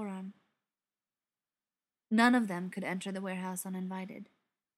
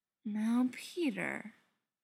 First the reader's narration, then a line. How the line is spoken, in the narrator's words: Beckett drawled